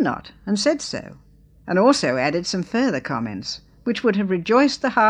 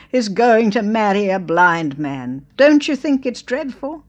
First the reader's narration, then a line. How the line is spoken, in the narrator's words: wailed